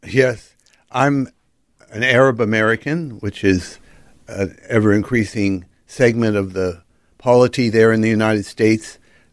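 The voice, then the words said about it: American accent. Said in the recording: “we can hear an American accent”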